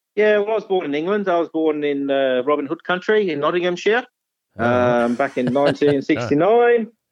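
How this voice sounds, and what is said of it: Slight English accent. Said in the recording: “I detected a bit of an accent”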